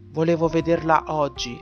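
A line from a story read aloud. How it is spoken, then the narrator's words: Sighed. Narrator (Italian): sospirò l'altro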